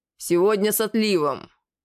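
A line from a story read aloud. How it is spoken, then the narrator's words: Growl. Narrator (Russian): рыкнул Рогат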